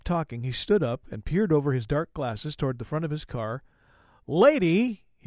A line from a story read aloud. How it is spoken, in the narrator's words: he shouted